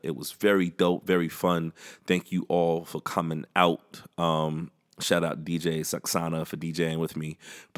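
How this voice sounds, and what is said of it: Slightly rattled, rough voice. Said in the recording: “My voice is a little rattled a little bit”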